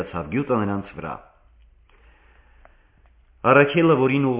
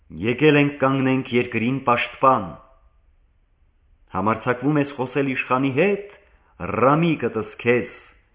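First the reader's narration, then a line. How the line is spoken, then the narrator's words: Agitated, stinging. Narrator (Armenian): այլայդված խայթեց առաքելին գյուտը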